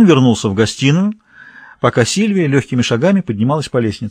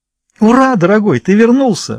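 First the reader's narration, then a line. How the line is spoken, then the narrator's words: Joyful exclamation. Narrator (Russian): воскликнула Сильвия радостно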